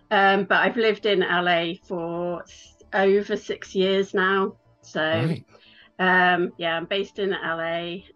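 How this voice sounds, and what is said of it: English Midlands accent. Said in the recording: “you haven't got an American accent ... I'm from England, which you can probably tell. I'm from the Midlands in England”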